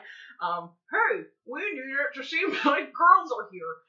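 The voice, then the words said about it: Imitates another person's voice. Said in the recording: “my Chris impression. ... This sounds exactly like Chris.”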